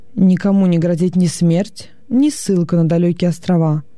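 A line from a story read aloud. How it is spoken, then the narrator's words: Plain. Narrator (Russian): сказал Авл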